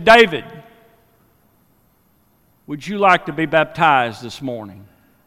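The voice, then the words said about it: Booming voice. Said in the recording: “in his booming voice”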